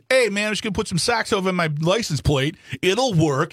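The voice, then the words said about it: Put-on regional accent. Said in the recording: “I'll do the accent”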